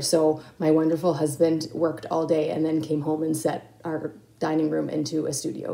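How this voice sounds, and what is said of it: Sick-sounding voice. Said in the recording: “the ... household has been taken out by COVID, and I was the last one to go down. And as you can hear by my voice,”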